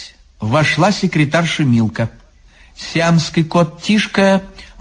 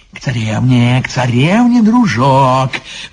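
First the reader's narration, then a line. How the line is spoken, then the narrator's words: Freed sage exclaiming. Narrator (Russian): воскликнул освобожденный мудрец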